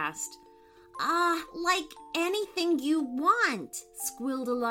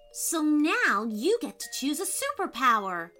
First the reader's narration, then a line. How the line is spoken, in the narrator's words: said Aaron excitedly